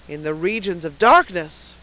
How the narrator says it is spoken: cried a voice

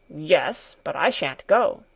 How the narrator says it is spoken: Peter growled

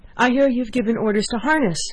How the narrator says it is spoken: she cried, panting

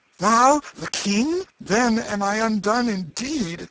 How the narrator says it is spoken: he exclaimed

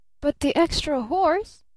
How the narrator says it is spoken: cried Barton

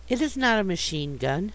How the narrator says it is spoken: said Time gently

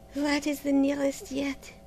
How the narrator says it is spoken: she murmured

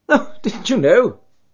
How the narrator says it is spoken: cried, laughing

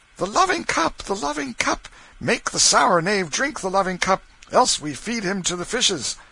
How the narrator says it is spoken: They cried out

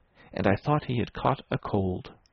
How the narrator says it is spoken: Verloc muttered at the wall

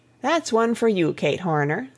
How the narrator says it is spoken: said Maria with a chuckle

